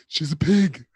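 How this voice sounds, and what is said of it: Poor impression, sounds like cartoon moose. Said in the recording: “my Trump impression. It's the worst. I have the worst Trump impression. Worse than anyone else in the world. I sound like Bullwinkle the Moose.”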